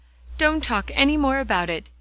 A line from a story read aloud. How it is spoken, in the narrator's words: he cried a trifle impatiently